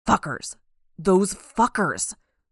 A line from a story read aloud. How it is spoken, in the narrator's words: She growled